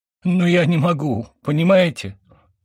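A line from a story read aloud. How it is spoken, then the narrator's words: Sobbing. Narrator (Russian): Семён всхлипнул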